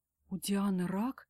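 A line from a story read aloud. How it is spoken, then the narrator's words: Frightened, choked up. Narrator (Russian): испуганно сглатываю ком в горле я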